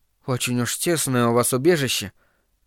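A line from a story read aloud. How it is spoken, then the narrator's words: Muttered. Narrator (Russian): пробормотал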